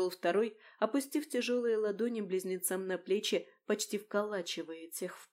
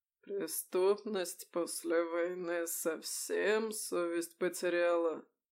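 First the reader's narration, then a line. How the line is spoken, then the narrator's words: Slow, slightly husky voice. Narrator (Russian): медленный, с едва заметной хрипотцой голос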